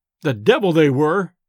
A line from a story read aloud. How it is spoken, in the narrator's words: I exclaimed irascibly